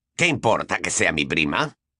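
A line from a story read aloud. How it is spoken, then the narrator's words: Sharp retort. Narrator (Spanish): le espetó Sirius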